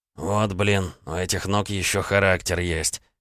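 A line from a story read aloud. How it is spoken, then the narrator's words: Grumble. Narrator (Russian): проворчал Горбунов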